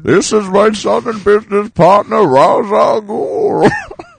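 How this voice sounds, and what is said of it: Impression of the Bane character voice. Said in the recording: “Bane is a weird impression because Bane's not a real person. We're doing an impression of another actor doing Bane.”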